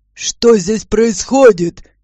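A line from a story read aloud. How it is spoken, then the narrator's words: Displeased bark. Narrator (Russian): недовольно рявкнул хозяин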